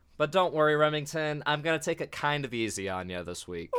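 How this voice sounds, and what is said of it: Sick, strained voice. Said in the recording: “I'm a little on the ill side, so my voice is kind of killing me, so I can't get too excited.”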